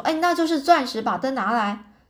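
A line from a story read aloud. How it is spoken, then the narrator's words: Excited exclamation. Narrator (Chinese): 艾伦·夸特曼就叫了起来，说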